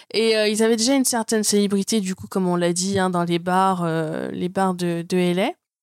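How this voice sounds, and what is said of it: Very thick accent. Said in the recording (French): “j'ai un accent aussi à, couper au couteau”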